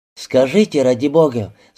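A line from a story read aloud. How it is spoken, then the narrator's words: Worried tone. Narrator (Russian): заговорила она озабоченным тоном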